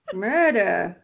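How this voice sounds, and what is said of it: Weak put-on Australian accent. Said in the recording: “That was my best Australian accent. It wasn't very good.”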